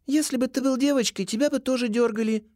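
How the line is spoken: Matter-of-fact tone. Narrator (Russian): будничным тоном отвечает она

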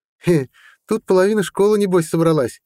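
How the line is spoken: Cheerful laughing. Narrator (Russian): весело рассмеялся Исадор

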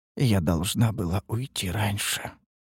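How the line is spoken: Upset muttering. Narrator (Russian): пробормотала она расстроенно

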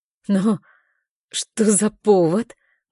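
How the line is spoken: Hoarse, rusty voice. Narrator (Russian): Мой голос звучит хрипло, будто я разучилась говорить

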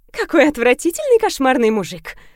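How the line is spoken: Loud laughter. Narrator (Russian): захохотала Люда

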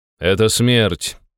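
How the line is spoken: Cold. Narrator (Russian): холодно произнес я

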